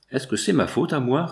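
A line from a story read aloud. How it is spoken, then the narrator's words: Sulky retort. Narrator (French): répliqua la porteuse d'un ton maussade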